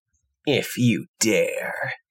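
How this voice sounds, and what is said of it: Creepy character voice. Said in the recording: “You don't enjoy my creepy voice. ... It's really good. ... Very creepy.”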